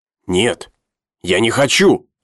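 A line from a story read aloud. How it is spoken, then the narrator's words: Shout. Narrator (Russian): закричал Джилат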